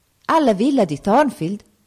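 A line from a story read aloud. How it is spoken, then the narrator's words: Exclaimed. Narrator (Italian): esclamò il pastore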